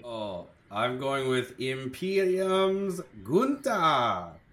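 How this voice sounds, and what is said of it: Put-on accent. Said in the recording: “Great accent.”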